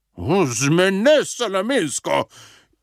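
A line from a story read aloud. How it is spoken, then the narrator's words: King shouting angrily. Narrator (Slovenian): je jezno zavpil kralj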